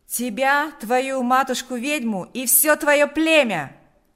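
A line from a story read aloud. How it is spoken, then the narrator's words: Shouting. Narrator (Russian): закричал Панас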